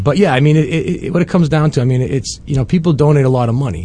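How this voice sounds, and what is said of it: Boston-style accent. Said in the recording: “He's got the Wahlberg accent”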